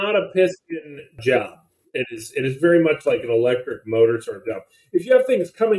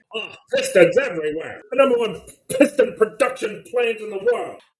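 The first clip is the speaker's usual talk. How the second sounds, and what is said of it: Old-time 1930s newsreel reporter voice. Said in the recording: “I love the, like, 1930s reporter accent.”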